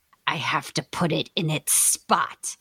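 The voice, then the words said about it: Creepy voice. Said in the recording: “in this really creepy voice,”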